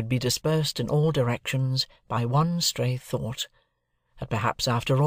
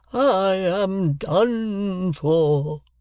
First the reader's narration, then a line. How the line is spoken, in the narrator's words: as the victim, and he barbarously bellowed